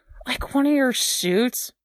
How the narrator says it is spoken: Steve groaned

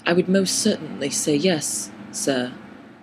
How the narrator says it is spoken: I said slowly

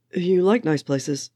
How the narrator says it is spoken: Steve said

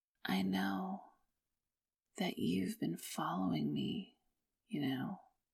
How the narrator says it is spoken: Ashiwara said, his voice quiet

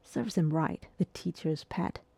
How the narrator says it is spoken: whispered

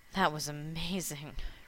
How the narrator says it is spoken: Rodney sighed

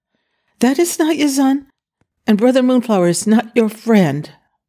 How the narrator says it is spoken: thought he was about to die, and heartbroken at the thought of leaving alone, he exclaimed hurriedly

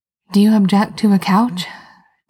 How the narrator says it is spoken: Genevieve said breathlessly

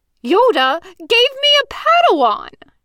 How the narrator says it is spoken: Dazai shrieked

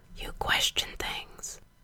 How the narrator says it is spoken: Gerard whispered against Frank's hair

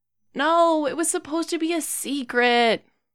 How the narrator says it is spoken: groans

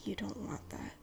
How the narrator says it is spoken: Will whispers back

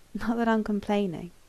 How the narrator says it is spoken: he mumbled into Patrick's shirt

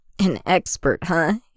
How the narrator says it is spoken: Anakin chuckles

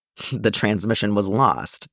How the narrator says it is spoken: he asks dryly

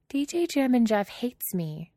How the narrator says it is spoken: Alana says sadly

